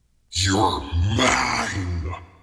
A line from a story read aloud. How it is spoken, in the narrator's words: he snarled